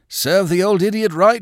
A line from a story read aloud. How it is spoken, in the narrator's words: he cried